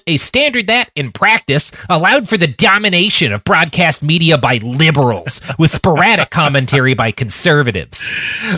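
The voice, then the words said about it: Imitates another person's voice. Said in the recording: “That's my Benny Shapps voice ... concerned at how good that was of an imitation ... It's really quite good. It's really quite good.”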